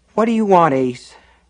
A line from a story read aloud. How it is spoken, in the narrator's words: Nat Copeland repeated wearily